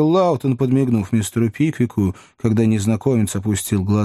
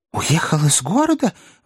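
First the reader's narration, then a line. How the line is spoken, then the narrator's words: Exclaimed. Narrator (Russian): воскликнул мистер Пиквик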